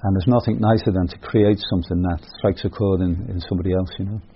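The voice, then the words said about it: British accent. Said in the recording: “your accent is very much from the other side of the Irish Sea”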